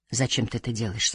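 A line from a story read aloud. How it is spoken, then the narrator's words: Plain. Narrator (Russian): спросила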